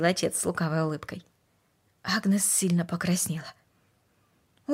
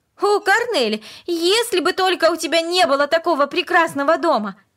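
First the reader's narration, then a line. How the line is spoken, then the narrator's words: Sudden passionate exclamation. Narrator (Russian): Вдруг она страстно воскликнула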